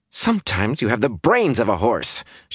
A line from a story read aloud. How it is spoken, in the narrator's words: she panted